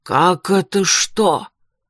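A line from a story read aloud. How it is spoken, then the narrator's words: Irritated exhale. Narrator (Russian): раздраженно выдохнул он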